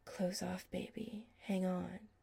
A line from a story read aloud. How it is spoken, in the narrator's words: he whispered against Chris's lips